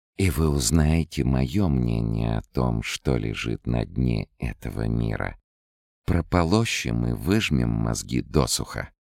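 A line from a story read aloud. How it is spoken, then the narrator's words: Purring. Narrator (Russian): промурлыкала Лаура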